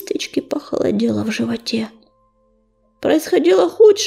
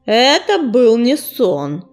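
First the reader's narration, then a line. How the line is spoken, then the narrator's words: Growling. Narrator (Russian): прорычал он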